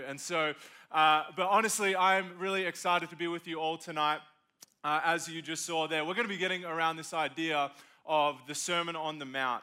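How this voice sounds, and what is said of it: Australian accent. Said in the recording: “My voice is a little bit different. I'm from Australia”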